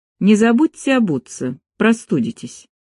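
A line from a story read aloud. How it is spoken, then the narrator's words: Cold. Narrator (Russian): подавила в себе досадное чувство и лишь холодно добавила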